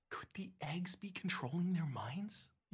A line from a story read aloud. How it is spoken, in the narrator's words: You whisper